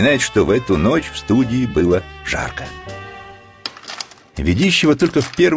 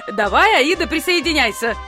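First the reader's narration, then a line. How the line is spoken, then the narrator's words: Shouting. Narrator (Russian): закричали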